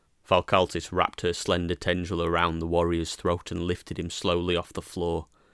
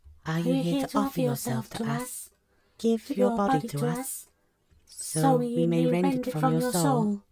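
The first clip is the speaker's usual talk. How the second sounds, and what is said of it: Whispered voices. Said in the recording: “whisper on their mother's behalf”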